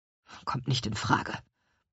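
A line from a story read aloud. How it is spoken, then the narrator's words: Grumbled. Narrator (German): brummte Herr Kuchenbrand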